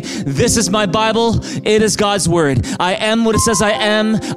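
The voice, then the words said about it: Loud, emphatic group recitation. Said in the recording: “in a big loud voice.”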